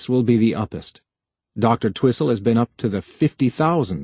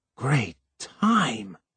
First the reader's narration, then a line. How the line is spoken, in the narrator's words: whispered Cooper